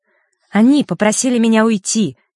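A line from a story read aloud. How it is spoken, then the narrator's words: Angry. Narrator (Russian): сердито произнесла Василиса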